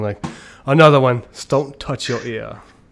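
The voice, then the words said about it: Put-on British accent. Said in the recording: “that's my British accent, which is, I think, on point”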